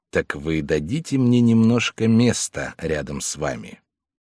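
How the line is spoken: Very quiet question. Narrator (Russian): тихо-тихо спросил

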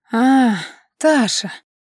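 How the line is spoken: Heavy exhale. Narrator (Russian): тяжело выдохнул мистер Иден

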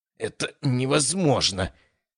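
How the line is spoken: Frustrated groan. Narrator (Russian): простонал он, когда кусочек курицы в третий раз выскользнул и шлепнулся обратно в миску

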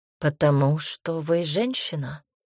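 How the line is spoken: Calm. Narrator (Russian): спокойно ответил Милош

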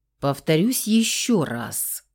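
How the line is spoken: Growling again. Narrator (Russian): вновь зарычал Феникс

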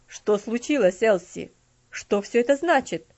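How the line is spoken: Bewildered exclamation. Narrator (Russian): воскликнул мистер Динсмор, растерявшись, ничего не понимая

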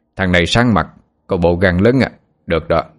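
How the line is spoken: Hearty laughing man. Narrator (Vietnamese): ông cười lớn nói

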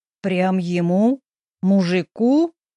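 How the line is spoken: Groaning. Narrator (Russian): Я застонала

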